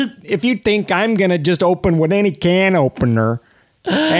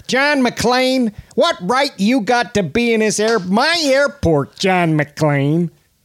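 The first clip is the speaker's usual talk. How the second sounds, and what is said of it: Imitates a Chicago actor's accent. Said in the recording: “That's my favorite kind of Chicago actor accent, I think, is the Franz.”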